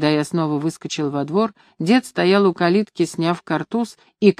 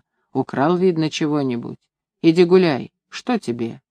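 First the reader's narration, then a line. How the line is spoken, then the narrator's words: Calm. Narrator (Russian): она спокойно сказала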